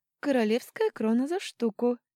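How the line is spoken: Cheerful rapid patter. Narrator (Russian): весело протараторила продавщица

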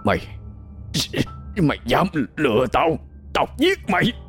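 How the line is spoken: Weak, trembling, gritted voice. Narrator (Vietnamese): Gã dùng chút hơi tàn, run run gằn giọng nói

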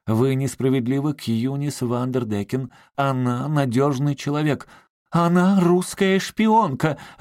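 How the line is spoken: Exclaiming. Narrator (Russian): воскликнула миссис Саттервайт

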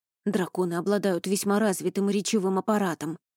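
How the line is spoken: Halting mutter. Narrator (Russian): сбивчиво бормотал Рони

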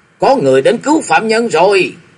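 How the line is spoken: Shouted. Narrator (Vietnamese): tiếng hô quát

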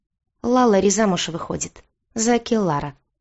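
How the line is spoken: Quiet man. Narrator (Russian): тихо сообщил жене Алексей

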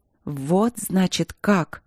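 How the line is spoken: Dull, hollow voice. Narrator (Russian): проговорила я глухо, и слова звоном отдавались в моих ушах

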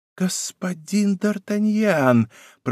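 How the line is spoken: Astonished whisper. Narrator (Russian): прошептал Мазарини, не могший скрыть своего изумления

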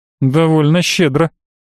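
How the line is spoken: Snorting. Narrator (Russian): хмыкнул адвокат

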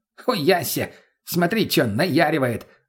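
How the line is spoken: Guffawing. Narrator (Russian): захохотал мутный

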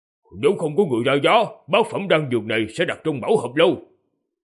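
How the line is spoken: Man, raised voice. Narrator (Vietnamese): người đàn ông cao giọng nói

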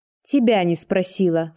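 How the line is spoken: Scornful snort. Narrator (Russian): фыркнула я

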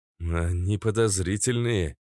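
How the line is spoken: Uncertain. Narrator (Russian): неуверенно сказал Резвый

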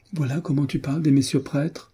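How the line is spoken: Exclaimed. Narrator (French): s'écria-t-elle

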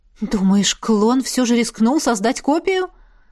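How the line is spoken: Exclaimed. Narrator (Russian): воскликнула наставница

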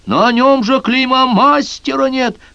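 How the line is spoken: Blacksmith shouting. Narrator (Russian): крикнул кузнец

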